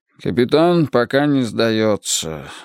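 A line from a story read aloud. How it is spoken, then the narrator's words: Weary. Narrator (Russian): устало ответил он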